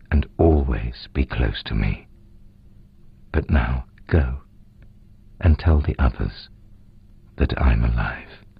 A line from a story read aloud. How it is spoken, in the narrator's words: Jesus said gently